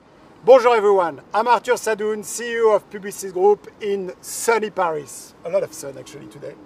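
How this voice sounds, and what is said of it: Strong non-native accent in English. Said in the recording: “my terrible accent”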